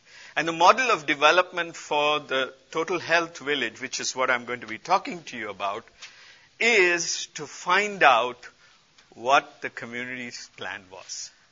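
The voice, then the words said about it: Speaks with a noticeable accent. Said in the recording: “How are you guys doing with my accent? ... this is the only one I have”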